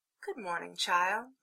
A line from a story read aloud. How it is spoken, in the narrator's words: said sweetly